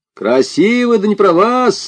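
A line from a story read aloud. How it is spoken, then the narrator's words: Young man shouting. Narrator (Russian): закричал парень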